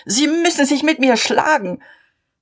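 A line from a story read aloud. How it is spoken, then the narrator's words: Shouting. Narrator (German): schrie er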